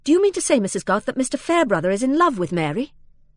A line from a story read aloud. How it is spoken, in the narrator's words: said almost sharply